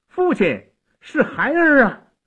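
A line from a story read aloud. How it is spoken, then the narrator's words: Loud shout upward. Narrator (Chinese): 城下的小将 向城上高喊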